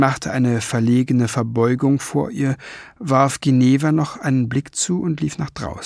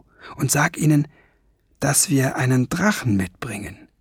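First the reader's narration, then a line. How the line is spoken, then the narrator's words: Whispering. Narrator (German): flüsterte Ben Fliegenbein zu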